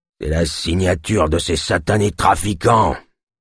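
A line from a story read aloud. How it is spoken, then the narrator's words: Man growling. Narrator (French): grogna l'homme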